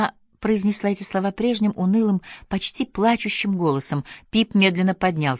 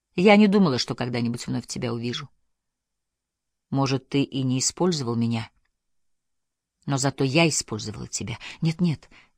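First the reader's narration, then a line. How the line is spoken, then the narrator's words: Gentle male objection. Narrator (Russian): мягко возразил он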